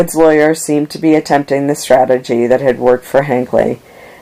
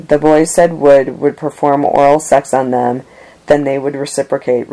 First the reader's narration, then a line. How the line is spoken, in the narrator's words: Richardson said